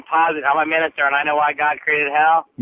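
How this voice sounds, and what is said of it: Fake put-on voice. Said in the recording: “Doing a phony voice.”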